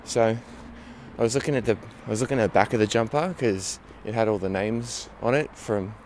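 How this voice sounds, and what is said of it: Slipping into an Australian accent. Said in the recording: “I feel like I'm doing an Australian accent”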